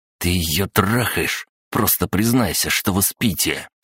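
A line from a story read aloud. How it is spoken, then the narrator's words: Venomous snakelike hiss. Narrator (Russian): снова зашипел, как подколодная змея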